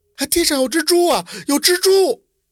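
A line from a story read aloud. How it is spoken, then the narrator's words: Crying shout. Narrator (Chinese): 丫鬟 就哭着喊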